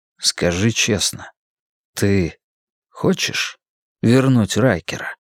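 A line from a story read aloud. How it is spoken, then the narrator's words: Quiet. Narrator (Russian): тихо промолвил я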